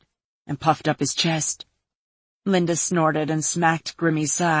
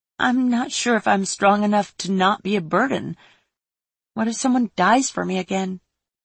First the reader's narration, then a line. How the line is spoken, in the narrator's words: Toffle sighed